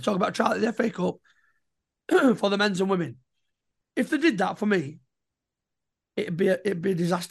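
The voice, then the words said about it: Strained, fading hoarse voice. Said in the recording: “My voice is going, because I had a long overdue day out with the boys yesterday and I'm a bit struggling.”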